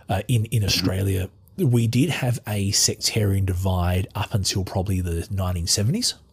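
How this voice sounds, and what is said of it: Australian accent. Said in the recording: “as you can tell from my accent, I'm Australian.”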